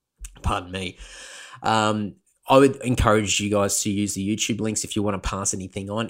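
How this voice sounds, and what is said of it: Strained, fading voice. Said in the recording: “I'm losing my voice. ... I'm losing my voice again.”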